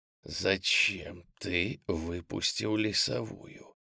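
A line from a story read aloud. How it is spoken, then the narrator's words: Hissing whisper. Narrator (Russian): свистяще прошептал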